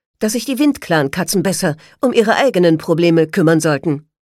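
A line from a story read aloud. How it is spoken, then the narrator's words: Sharp retort. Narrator (German): konterte scharf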